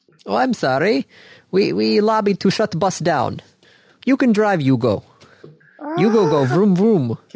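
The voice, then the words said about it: Put-on Eastern European accent. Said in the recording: “why you're sounding like Borat ... You were going for like a Russian accent somewhere there? ... I was kind of going more Eastern European.”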